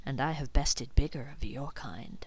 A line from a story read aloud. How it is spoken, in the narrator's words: she purred